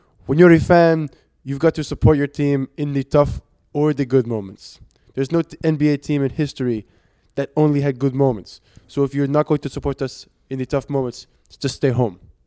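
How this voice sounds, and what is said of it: Weak put-on French accent. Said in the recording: “What do you rate that French accent? ... I'm not liking it. ... none out of 10. Zero.”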